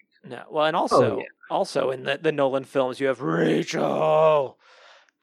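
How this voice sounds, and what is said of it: Imitates another person's voice. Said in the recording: “my Christian Bale impression”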